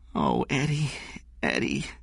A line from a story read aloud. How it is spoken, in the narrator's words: she said, looking at him sadly